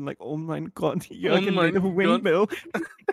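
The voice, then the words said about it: Put-on German accent. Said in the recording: “it lets me practice my accents”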